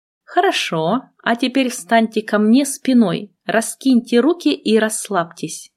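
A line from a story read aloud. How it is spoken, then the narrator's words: Plain. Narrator (Russian): сказал он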